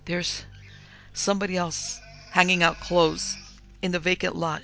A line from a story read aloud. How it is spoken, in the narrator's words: she gasped